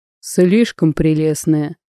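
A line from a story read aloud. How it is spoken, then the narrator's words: Gloomy. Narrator (Russian): как-то мрачно сказал Алексей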